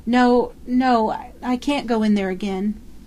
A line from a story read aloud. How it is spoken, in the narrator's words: she collapsed, shuddering, crying in a child's whimper